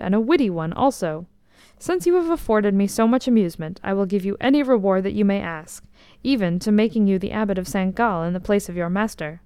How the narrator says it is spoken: he exclaimed

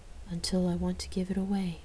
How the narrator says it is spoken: I whispered in amazement

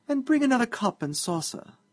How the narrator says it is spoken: said the deputy mayor sweetly

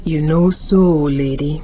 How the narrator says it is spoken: Tijan rumbled

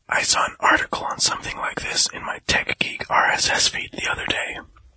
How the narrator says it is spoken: he said in a whisper

